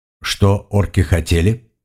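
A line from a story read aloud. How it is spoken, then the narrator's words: Plain. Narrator (Russian): спросил он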